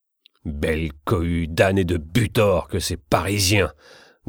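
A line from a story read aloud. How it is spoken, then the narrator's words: Grumbling under breath. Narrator (French): grommelait-il entre ses dents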